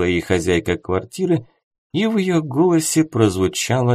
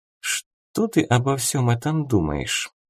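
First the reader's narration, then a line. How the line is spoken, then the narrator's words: Quiet question. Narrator (Russian): тихонько спросила Искра Ипполита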